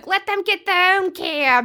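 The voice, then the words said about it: Put-on New York accent. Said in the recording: “that was my terrible New York accent. ... That was good.”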